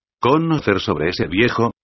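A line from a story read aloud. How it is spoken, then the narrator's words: Plain question. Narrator (Spanish): preguntó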